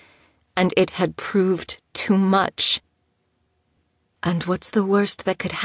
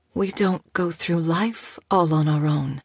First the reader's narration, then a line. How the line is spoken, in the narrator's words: Teek said soothingly